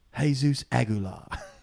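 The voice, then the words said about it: Put-on British accent. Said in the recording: “in a British accent. ... That's good. I like it.”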